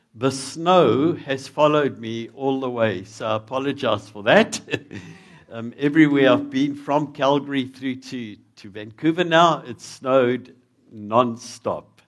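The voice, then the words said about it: South African accent. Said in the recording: “if you're battling with my accent ... Because in South Africa”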